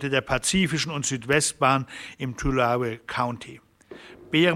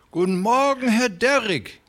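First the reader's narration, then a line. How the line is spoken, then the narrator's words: Fat man calling out. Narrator (German): rief der Dicke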